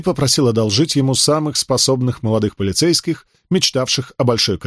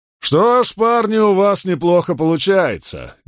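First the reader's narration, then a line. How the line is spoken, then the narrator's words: Loud, with a pause. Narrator (Russian): громко сказал, сделав паузу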